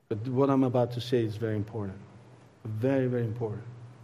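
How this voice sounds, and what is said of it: Italian accent. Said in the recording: “my Italian accent”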